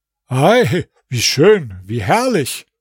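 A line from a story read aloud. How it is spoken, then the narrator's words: Ecstatic exclamation. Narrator (German): rief außer sich vor Freude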